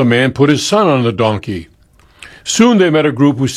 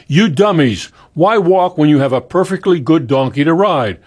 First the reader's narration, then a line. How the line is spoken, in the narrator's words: As they passed a traveler, he shouted